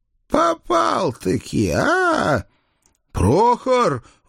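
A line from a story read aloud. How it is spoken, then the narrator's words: Howled. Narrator (Russian): взвыл я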